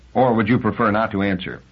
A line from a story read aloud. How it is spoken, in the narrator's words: Liebig said stiffly